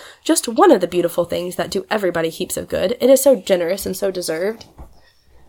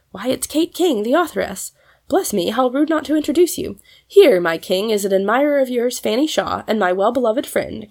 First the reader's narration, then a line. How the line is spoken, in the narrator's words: cried Polly